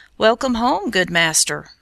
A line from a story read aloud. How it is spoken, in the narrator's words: cried the shepherd